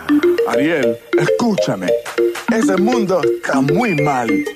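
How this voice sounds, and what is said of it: Spanish with a Cuban accent. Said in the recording (Catalan): “aquest cranc ha de tenir accent cubà”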